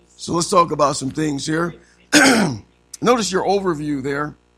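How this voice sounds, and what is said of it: Hoarse, strained voice. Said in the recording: “my voice is shot.”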